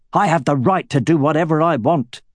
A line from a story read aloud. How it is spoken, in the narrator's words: growled Roran